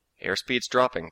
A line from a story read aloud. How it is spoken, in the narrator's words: Jones said evenly